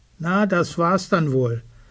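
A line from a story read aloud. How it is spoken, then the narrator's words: Wolf calling out. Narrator (German): Der Wolf ruft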